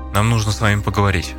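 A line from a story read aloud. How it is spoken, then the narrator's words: Plain. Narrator (Russian): ответил Армстронг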